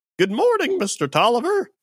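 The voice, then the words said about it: Urchin character voice. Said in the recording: “excellent urchin impression”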